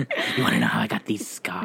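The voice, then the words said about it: Joker character voice impression. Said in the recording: “I don't do a good Joker impression”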